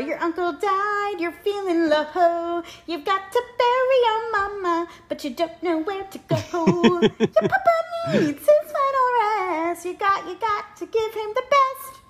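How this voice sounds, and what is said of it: Youthful child's singing voice. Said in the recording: “very youthful ... my impression of John”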